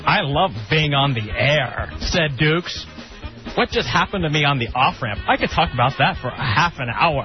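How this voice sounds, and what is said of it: Impression of radio host Dukes. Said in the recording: “That's a good impression.”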